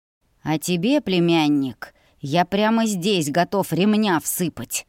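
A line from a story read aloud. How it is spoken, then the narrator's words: Father hissing. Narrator (Russian): прошипел отец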